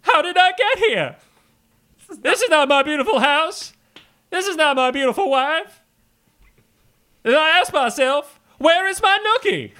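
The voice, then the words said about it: Imitates a rock singer's voice. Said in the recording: “my Fred Durst impression is also heavily skewed towards my David Byrne from the Talking Heads impression. They are almost exactly alike.”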